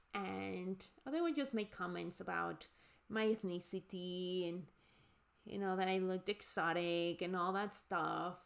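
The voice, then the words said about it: Strong non-native English accent. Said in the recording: “with my accent, as you can hear, you know, I have a deep accent because English is not my first language”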